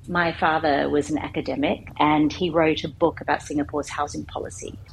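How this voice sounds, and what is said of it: Thick Australian accent. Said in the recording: “this thick Australian accent”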